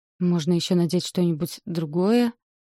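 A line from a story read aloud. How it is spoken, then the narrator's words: Uncertain. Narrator (Russian): Неуверенно говорю я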